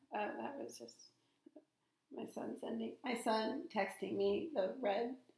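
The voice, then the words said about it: Hoarse voice. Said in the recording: “My voice is getting hoarser... Yeah, it is.”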